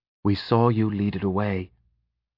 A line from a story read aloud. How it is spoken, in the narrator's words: Pen whispered